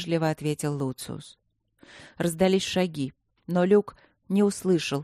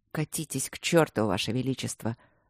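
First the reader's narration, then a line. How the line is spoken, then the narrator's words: Angry mutter. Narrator (Russian): зло пробормотал Люк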